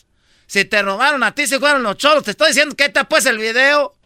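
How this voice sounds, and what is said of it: Shouting angrily. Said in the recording (Spanish): “Me estás me estás gritando ... me está gritando”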